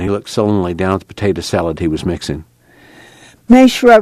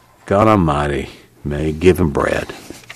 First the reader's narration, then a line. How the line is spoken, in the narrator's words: From behind her, Al growled